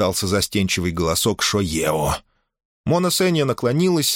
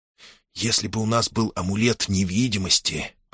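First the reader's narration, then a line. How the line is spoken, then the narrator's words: Whisper. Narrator (Russian): прошептал Ких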